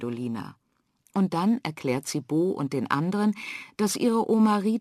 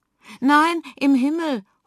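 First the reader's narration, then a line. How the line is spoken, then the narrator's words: Call. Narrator (German): ruft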